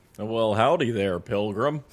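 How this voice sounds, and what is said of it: John Wayne impression. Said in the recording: “doing an impression of John Wayne”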